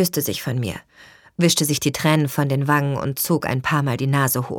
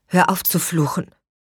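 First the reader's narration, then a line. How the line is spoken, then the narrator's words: Trembling admonishment. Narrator (German): ermahnte Christine mich mit zitternder Stimme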